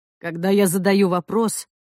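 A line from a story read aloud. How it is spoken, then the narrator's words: Plain. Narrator (Russian): сказал он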